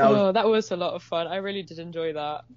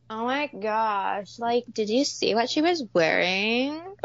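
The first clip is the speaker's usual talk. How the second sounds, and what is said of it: Exaggerated Valley Girl accent. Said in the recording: “I could go full Valley Girl”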